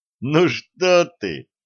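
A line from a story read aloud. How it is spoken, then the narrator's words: Laughing. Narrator (Russian): засмеялся Долгов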